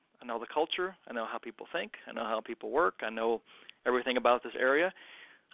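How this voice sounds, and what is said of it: Kentucky accent. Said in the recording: “Born and raised in Kentucky, if you couldn't tell by my accent, the pokes out sometimes”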